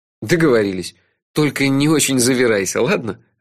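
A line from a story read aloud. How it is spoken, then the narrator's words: Laughing. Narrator (Russian): рассмеялся я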